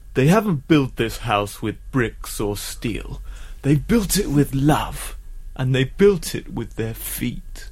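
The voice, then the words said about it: Imitates another person's voice. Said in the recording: “Kevin MacLeod of Grand Designs”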